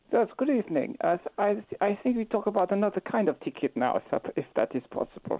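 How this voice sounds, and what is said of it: Put-on Eastern European accent, melodic. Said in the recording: “Lovely accent. What a great accent. ... Beautiful, isn't it? ... melodic. ... Great accent. This is a very good accent you are doing. ... unspecified Eastern European country”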